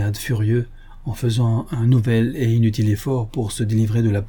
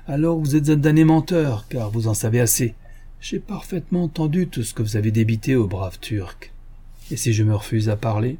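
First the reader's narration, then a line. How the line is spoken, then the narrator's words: Irritated sneer. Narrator (French): L'homme ricana d'un air irrité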